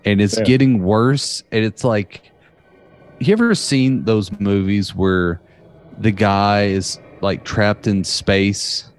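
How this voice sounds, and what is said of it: Strong Southern US accent. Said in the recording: “My southern accent is cutting through pretty hard, and I'm having issues speaking the English language in a clear, consistent fashion”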